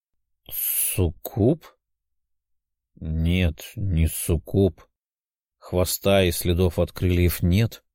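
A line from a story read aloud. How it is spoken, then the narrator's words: Muttered. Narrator (Russian): пробормотал парень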